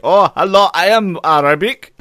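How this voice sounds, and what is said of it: Put-on Arab accent. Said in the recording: “I want him to put on the accent”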